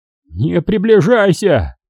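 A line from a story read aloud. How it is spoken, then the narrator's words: Shouting. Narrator (Russian): закричал Майер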